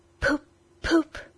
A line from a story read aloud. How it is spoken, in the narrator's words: he was still heard to murmur